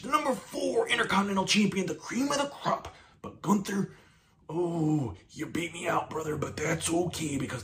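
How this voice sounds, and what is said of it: Macho Man Randy Savage impression. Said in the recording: “the Macho Man ... Should do an impression.”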